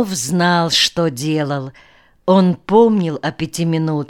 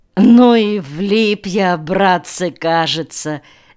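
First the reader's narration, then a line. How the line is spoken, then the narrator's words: Sudden laughter. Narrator (Russian): неожиданно рассмеялся Алекс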